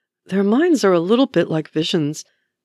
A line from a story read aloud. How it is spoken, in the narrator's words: murmurs Wanda